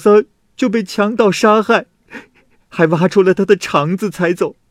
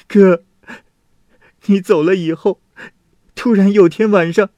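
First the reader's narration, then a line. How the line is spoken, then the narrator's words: Sobbing uncontrollably. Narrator (Chinese): 弟弟一看见他就失声痛哭，说道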